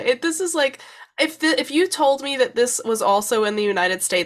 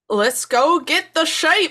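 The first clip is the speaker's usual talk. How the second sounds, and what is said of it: Poor attempt at Scottish accent. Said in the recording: “an attempt at a Scottish accent by someone who has no background in Scotland whatsoever ... I don't even know if I'd call that an attempt. That's an insult right there.”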